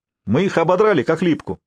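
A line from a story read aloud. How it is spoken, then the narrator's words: Pleased shout, young warrior. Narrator (Russian): с довольной улыбкой выкрикнул безусый воин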